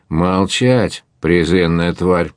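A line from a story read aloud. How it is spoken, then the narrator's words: Menacing cry, bear cub. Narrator (Russian): грозно вскричал медвежонок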